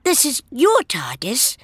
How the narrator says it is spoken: She asked hesitantly

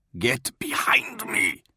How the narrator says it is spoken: hissed Madalena Dearbeloved

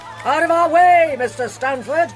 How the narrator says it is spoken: yelled the doctor

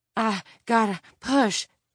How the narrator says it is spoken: Tiffany panted

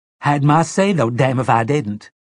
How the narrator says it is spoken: Detta cried

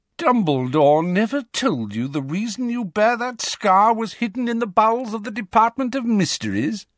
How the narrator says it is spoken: Malfoy sneered

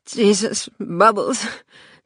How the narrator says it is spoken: she said, her voice jerky from crying

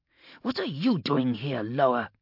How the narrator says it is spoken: growled Gorda

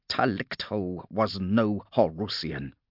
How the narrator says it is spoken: growled Hesh

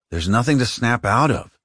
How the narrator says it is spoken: he replied

